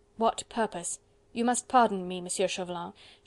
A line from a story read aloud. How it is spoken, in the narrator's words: she added with a quick, impatient sigh